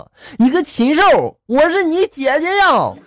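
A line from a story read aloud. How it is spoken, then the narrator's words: Woman shouting loudly. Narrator (Chinese): 这女的在后面冲我大喊了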